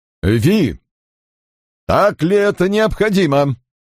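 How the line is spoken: Sharp interruption. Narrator (Russian): резко перебил ее Бернард Квест

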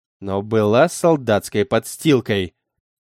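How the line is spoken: Angry sharp retort. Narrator (Russian): Скинулась она, глаза зло сощурены

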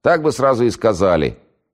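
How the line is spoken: Full-throated yell. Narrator (Russian): заорала во все горло

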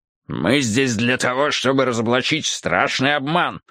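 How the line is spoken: Big man's growled reply. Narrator (Russian): прорычал в ответ крупный мужчина

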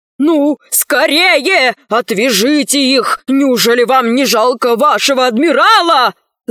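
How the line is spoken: Shouting. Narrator (Russian): закричал адмирал

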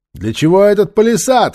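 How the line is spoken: Shout after someone. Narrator (Russian): крикнул ему вслед Нефер

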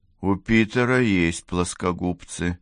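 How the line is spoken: Gloomy. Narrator (Russian): мрачно сказал коротышка

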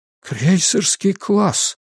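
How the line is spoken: Near whisper. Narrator (Russian): почти шепотом добавил Гарпаго

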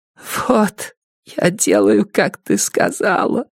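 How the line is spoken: Strangled hoarse wheeze. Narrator (Russian): сдавленно прохрипела она

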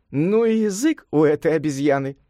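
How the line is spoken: Laughing. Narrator (Russian): рассмеялась Батисатва

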